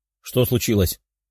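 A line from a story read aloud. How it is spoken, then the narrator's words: Plain, several girls. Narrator (Russian): спросили девушки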